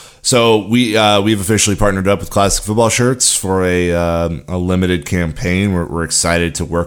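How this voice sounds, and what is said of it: Usual voice. Nothing is said of it.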